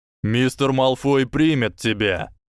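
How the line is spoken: Threatening tone. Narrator (Russian): угрожающим тоном сказал вернувшийся Гойл

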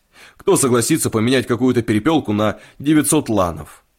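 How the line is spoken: Prince's shout. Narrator (Russian): князь крикнул

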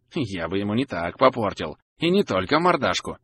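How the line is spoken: Hissing. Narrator (Russian): прошипел Деггер

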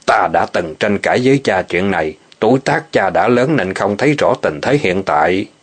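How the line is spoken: Cold scoffing snort. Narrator (Vietnamese): Ô Ứng Nguyên lạnh lùng hùng một tiếng

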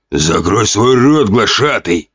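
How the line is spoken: Orc growling. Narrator (Russian): прорычал сидевший на троне орк

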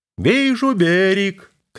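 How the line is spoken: Shouted from the helm. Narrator (Russian): крикнул боцман Мат со штурвала горизонтальной наводки

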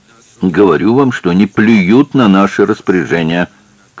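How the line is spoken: Shouting. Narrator (Russian): кричал инженер

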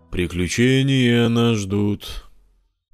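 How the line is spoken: Soft half-voiced singing. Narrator (Russian): вполголоса напел песенку из мультика Саня

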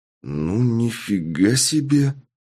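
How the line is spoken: Drawling. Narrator (Russian): протянул я

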